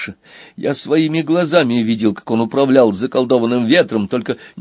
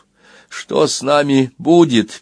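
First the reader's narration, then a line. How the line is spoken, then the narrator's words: Sad question. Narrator (Russian): печально спросил ленивец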